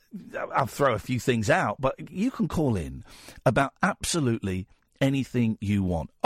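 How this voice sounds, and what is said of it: Croaky, strained voice. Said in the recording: “hear my voice is going a bit? ... it's making me a bit croaky”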